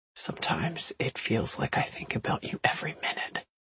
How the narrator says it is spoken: whispered

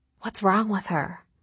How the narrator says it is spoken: whispered Alice

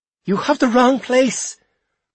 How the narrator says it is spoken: cried my mother

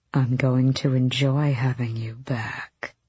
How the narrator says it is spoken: he purred

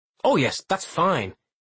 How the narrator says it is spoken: Pinch says urgently

